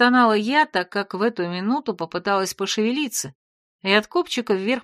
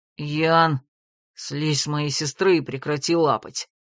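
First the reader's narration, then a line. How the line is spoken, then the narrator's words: Creaky rasp. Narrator (Russian): Проскрипел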